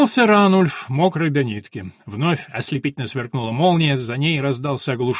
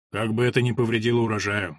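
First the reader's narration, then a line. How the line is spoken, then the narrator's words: Priest speaking gloomily. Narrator (Russian): мрачно сказал священник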